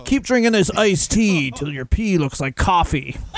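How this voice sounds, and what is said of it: Put-on wrestler character voice. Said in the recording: “What wrestler are you doing an impression of? ... I don't know. I just did a voice.”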